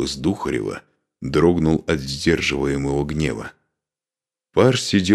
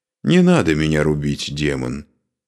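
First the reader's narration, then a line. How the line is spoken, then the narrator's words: Said calmly. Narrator (Russian): спокойно произнес Парс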